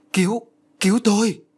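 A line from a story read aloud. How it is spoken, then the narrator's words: Joyful cry. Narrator (Vietnamese): Hiền mừng rỡ liền kêu lên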